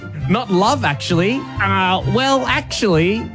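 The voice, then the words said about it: Nerdy geek character voice. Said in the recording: “you put in the voice ... that is a geek voice. That is a different voice to my normal voice”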